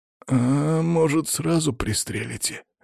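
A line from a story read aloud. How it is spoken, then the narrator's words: Barely audible reply. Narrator (Russian): едва слышно отозвался один из них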